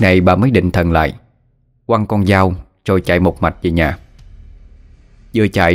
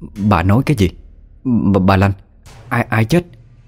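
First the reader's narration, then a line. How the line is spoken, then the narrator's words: Stunned, stammering question. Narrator (Vietnamese): bà Chính đứng như trời trồng một lát thì mới có thể lắp bắp hỏi lại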